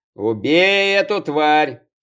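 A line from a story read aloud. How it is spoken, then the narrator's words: Angry hiss. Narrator (Russian): Злобно прошипела Аня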